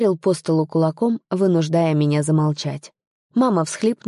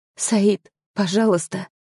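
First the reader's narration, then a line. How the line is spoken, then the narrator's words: Quiet. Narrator (Russian): тихое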